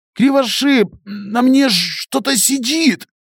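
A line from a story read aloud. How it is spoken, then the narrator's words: Barely audible rasp. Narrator (Russian): Прохрипел Беня еле слышно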